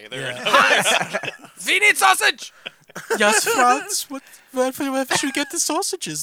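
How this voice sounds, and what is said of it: Put-on German accent, angry. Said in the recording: “German impersonation, they always sound gay ... if you don't do it as gay, they just sound really mean ... it's just angry ... Angry and gay.”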